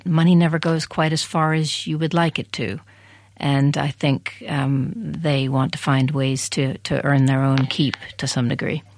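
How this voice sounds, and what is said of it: American accent. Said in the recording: “you can probably hear in my accent, American.”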